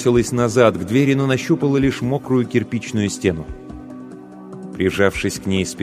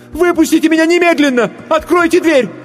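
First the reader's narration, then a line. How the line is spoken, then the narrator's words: Screaming. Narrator (Russian): закричала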